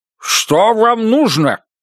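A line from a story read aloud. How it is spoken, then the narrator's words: Barking with full mouth. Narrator (Russian): рявкнул Гарри Рекс с набитым ртом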